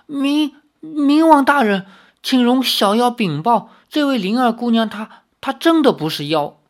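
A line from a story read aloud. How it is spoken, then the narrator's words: Frightened trembling voice. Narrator (Chinese): 吓得发抖的苏宗仙他颤声道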